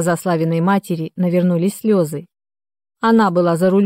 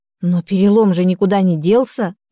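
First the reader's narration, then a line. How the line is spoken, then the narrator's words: Exclamation. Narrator (Russian): воскликнула я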